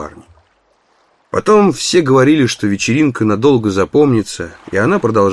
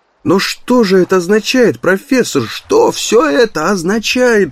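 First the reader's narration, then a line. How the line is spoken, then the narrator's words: Exclamation. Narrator (Russian): воскликнул Барни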